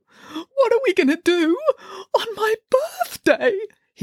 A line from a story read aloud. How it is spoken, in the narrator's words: He burst into loud wailing sobs